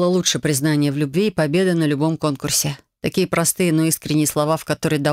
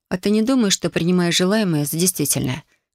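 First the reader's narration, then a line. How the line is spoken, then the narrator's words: Quiet repetition. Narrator (Russian): тихо повторил я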